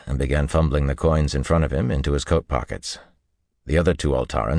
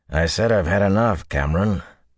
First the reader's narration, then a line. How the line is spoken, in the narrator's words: the graying man growled